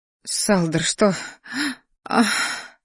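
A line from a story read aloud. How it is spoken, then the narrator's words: Moan. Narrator (Russian): Застонала Сия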